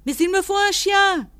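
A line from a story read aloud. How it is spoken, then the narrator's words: Shouted. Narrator (French): criai-je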